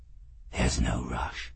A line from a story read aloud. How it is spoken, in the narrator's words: he said in a very soft voice